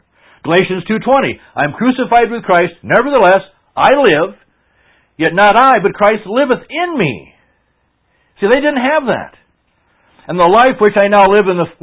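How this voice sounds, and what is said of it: Yelling loudly. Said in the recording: “Why am I yelling? ... Why do I have to yell?”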